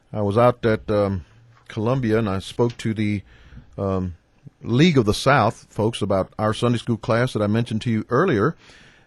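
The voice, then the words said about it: Gravelly, tired voice. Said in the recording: “my voice sounds a little gravelly, it's because I got up really early this morning after only having about 4 hours of sleep”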